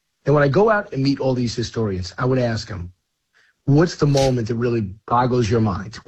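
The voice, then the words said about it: Slightly hoarse voice. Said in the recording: “no wonder you're losing your voice. ... I'm a little hoarse”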